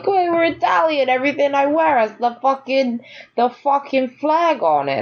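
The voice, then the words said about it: Poorly done put-on Italian-American accent. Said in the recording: “That was a terrible accent.”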